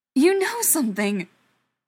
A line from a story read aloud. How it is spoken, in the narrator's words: Ryan continued, his voice rising as he came to the realization